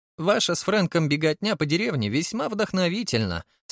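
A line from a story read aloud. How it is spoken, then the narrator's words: Cheerful. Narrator (Russian): сказал весело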